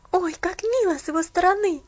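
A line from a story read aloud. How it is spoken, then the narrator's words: Exclaiming. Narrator (Russian): воскликнула Пуляна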